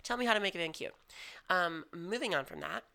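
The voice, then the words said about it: Raspy, hoarse voice. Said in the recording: “losing my voice. ... you can hear the rasp ... wake up sounding like Macy Gray”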